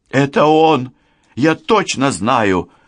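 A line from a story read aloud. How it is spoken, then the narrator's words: Exclaiming. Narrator (Russian): воскликнула Лиля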